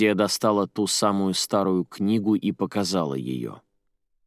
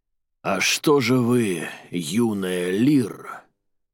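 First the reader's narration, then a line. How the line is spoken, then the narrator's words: Very loud, growling. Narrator (Russian): Голос мужчины был очень громкий, рычащий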